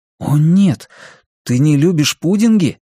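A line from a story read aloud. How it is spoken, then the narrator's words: Exclaimed. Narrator (Russian): воскликнул Кориолан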